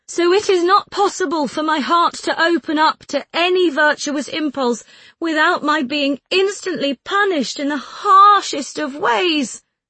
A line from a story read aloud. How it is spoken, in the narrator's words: I cried out with bitterness